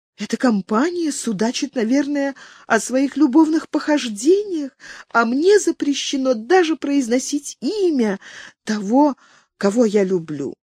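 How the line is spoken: Whisper. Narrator (Russian): прошептала принцесса

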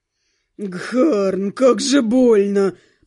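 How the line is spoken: Young man groaning in pain. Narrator (Russian): Простонал кто-то из подвергшихся нападению синего парней

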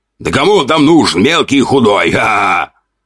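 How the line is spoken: Mocking laughter. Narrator (Russian): Хохотал второй, принижая меня

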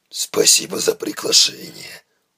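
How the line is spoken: Muttered. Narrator (Russian): буркнул Тайкус

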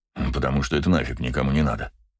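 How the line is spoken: Grumbled. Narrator (Russian): проворчал Браво

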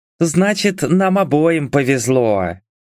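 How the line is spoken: Purr. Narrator (Russian): промурлыкала она

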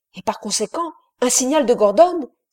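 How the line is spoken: Exclaimed. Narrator (French): s'écria Doniphan

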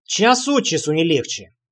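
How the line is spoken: Muttered. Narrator (Russian): пробурчал я

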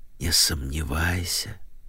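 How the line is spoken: Whisper. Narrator (Russian): шепнула Нэнси Джилет

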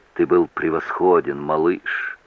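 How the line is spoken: Whispered. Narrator (Russian): прошептала она

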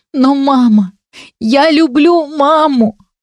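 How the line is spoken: Sobbing young woman. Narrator (Russian): всхлипнула девушка

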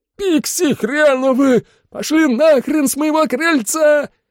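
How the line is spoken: Furious yell. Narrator (Russian): заорала королева эльфов

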